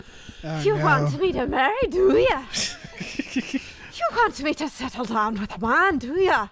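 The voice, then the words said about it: Put-on Scottish-sounding accent. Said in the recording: “that's kind of Scottish, isn't it? ... Yeah. A little.”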